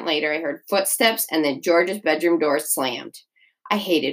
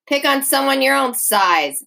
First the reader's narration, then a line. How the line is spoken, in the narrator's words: yelled down the hall